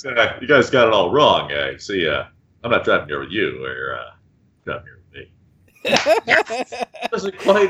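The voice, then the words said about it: Imitates another person's voice. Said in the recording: “We're going to go with Patrick Warburton. ... As Rorschach? ... my limited impression.”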